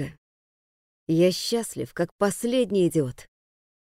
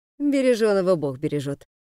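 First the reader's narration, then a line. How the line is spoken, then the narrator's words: Laughing. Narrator (Russian): засмеялся Глеб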